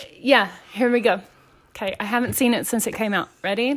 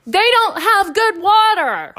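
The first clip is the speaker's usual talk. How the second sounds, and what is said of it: Imitates another person's voice. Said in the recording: “That was my impression.”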